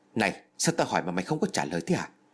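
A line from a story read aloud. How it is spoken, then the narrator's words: Irritated shout. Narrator (Vietnamese): Hắn ta mới bực mình quát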